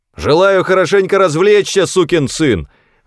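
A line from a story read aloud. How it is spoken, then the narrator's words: Shouted out. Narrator (Russian): выкрикнул я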